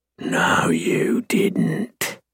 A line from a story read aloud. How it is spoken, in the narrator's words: I growl possessively